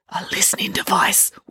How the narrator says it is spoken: whispered Dad

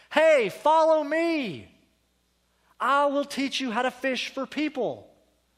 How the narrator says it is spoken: Jesus called out to you

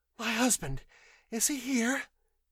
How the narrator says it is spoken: demanded breathlessly

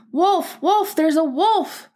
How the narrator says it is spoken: he cried out

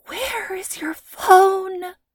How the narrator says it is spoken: She breathed in Lacey's ear

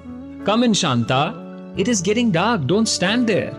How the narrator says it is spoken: Her mother shouted from inside

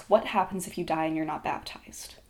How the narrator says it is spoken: The words left her half-open mouth in a whisper

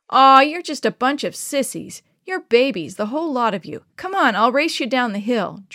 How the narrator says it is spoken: George hollered back

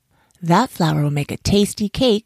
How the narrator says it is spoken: said the monkey, chuckling

